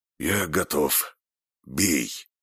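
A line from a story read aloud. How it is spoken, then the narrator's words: Hoarse wheeze, spitting blood. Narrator (Russian): сплевывая красную слюну, прохрипел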